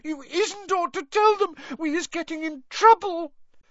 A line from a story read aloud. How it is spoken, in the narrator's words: sobbed Winky through her hands